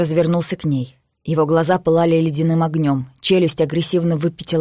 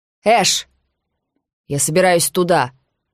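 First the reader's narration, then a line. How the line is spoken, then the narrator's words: Shouted over shoulder. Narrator (Russian): крикнул Эш через плечо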